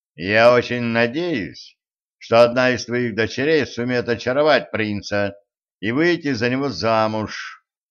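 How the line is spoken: Gloomy. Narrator (Russian): мрачно сказал Денис

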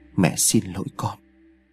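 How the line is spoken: Muttering. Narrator (Vietnamese): miệng lẩm bẩm

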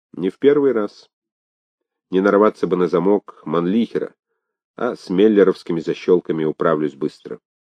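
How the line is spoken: Calm. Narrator (Russian): Он спокойно сказал

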